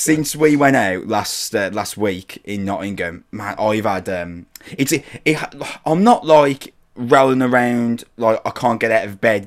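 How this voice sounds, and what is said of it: Sick-sounding voice. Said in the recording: “I'm so incredibly ill, which uh, people who are listening can probably tell by the way my voice sounds”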